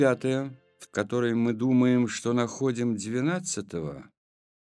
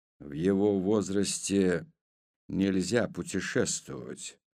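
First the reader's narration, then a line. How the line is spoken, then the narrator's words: Quiet speech. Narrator (Russian): негромко проговорил Авром Бер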